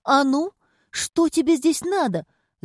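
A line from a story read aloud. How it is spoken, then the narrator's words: Shrieked. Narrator (Russian): завизжала она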